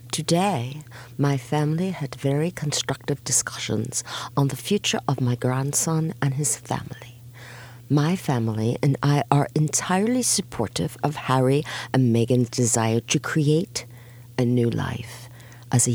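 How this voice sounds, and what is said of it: Posh English old-lady Queen voice. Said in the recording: “in the Queen's English? ... I have the most fabulous English accent and I could talk like an old lady.”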